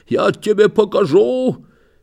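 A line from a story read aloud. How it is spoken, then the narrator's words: Hoarse wheeze. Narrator (Russian): хрипит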